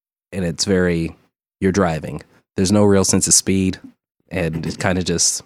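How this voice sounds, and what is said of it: Usual voice. Nothing is said of it.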